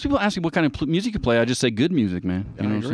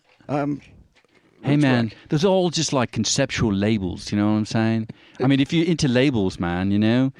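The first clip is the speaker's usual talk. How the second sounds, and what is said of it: Put-on British accent. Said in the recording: “the British accent there, I don't know why, I just got possessed for a second”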